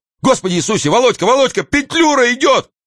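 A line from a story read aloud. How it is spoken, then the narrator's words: Shouting. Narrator (Russian): какой-то мещанин кричал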